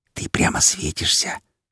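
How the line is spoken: Quiet reply. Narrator (Russian): Так же тихо ответила ей подруга

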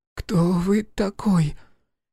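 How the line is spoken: Hoarse loud boy's voice. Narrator (Russian): Хриплый голос мальчика показался громким

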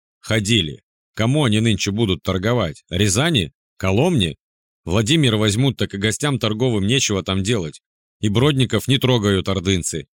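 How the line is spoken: Plain. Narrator (Russian): сказал я

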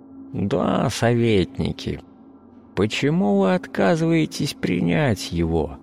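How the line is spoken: Soft, slightly husky voice. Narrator (Russian): Мягкий голос с легкой хрипотцой

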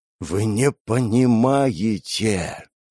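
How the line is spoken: Strained, forced out. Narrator (Russian): Наконец выдавил Николай Петрович

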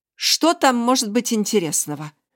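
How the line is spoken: Irritated. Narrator (Russian): раздраженно проговорила Марина

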